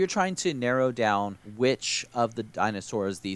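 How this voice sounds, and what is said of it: Usual voice. Nothing is said of it.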